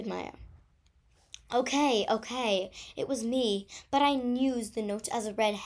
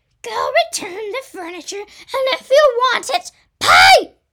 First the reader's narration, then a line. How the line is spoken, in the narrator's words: yelled Mr